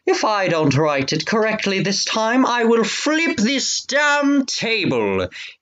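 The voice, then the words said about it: Put-on British accent, harsh tone. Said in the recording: “what's a good voice for King George? ... British. ... he said in a harsh tone. Was that a good British accent? ... Yeah, sure. ... Totally.”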